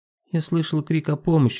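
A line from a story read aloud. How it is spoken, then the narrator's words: Calm. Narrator (Russian): сказал Велена спокойно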